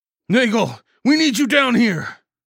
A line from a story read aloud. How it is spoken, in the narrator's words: I bellowed in the split second I made my decision